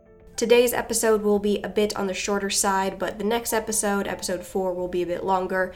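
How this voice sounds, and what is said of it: Voice affected by a cold. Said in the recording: “apologize for my voice. I'm getting over a cold”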